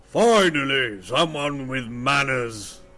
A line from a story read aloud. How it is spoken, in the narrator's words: a loud voice from behind the door booms and says